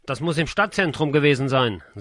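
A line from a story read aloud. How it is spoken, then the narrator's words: Plain. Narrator (German): sagte Kurt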